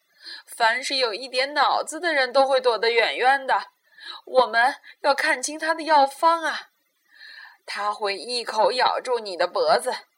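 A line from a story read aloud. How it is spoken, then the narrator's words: Owl, sighing. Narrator (Chinese): 猫头鹰叹息着说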